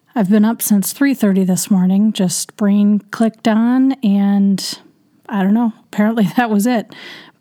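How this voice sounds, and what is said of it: Strained, failing voice. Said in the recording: “My voice is kind of going on me”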